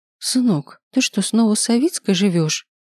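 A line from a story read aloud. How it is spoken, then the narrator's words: Mother exclaiming. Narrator (Russian): Воскликнула мать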